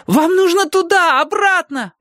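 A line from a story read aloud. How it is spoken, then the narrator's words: Yelling. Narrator (Russian): вопил я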